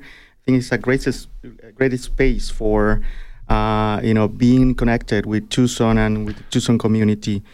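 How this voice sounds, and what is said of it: Mexican-accented English. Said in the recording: “I thought you had an Italian accent. I thought that was Italian. I didn't realize that was a Mexican accent.”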